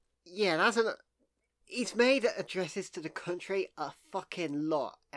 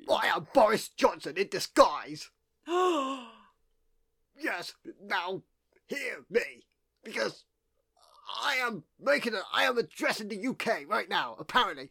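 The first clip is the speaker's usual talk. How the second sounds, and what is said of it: Boris Johnson impression. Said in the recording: “do a Boris Johnson impression”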